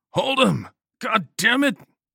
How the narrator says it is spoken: over the screams

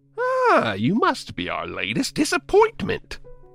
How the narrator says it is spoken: the clown said in a typical silly clown voice

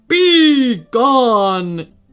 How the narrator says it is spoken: it roared, making its angry shout turn to a terrible moan

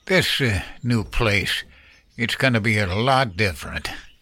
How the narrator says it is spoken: Henry muttered

